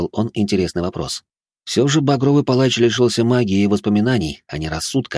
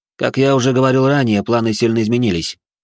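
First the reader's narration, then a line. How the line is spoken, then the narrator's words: Cold tone. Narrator (Russian): холодным тоном произнес Жозе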